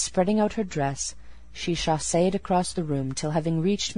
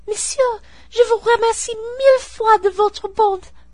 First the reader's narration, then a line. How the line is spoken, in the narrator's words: exclaiming